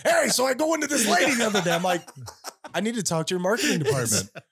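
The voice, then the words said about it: Put-on New York accent. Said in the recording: “talking to me in a New Yorker accent”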